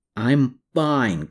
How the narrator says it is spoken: Klaus grumbled

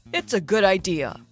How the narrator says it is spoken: he said in his usual mentor voice

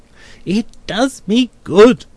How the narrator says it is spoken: cries Mr

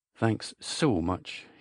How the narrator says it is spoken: said again

